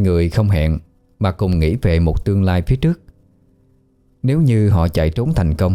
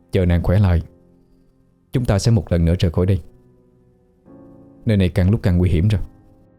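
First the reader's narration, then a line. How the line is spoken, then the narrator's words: Soft whisper. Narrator (Vietnamese): miệng khẽ thì thào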